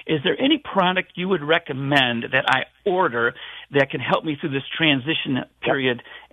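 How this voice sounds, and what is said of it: Rich radio-quality voice. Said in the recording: “That guy should be on the radio, man. That's a great radio voice.”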